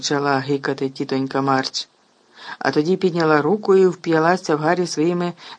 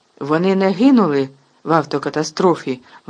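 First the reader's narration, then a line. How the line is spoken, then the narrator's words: Exclaiming. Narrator (Ukrainian): вигукнув Гаррі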